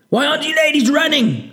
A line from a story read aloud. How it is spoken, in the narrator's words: Sergeant Petrov shouted